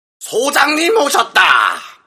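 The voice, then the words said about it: Lively, cheerful shouting voice. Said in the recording (Korean): “발랄한 목소리로 외치며”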